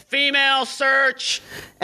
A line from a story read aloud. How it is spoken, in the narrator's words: Jimmy yells